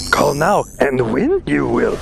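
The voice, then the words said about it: Yoda character voice impression. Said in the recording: “You heard Yoda.”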